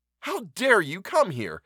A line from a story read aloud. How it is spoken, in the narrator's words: asked Van Cheele furiously